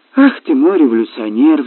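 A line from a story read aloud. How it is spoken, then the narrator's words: Queenly sigh. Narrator (Russian): вздохнула королева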